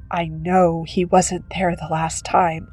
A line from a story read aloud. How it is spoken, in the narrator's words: mumbling